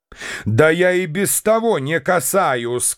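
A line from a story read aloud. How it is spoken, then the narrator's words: Shout. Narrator (Russian): крикнул я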